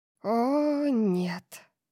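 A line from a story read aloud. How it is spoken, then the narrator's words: Breathed out. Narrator (Russian): выдохнула Тори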